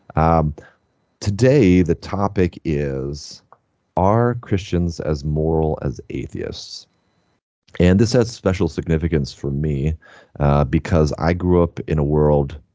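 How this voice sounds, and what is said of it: Slightly lowered, under-the-weather voice. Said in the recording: “I'm a little under the weather ... My voice gets a little lower when I get uh, on the verge”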